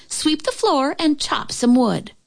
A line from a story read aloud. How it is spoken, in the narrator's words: yelled her older sister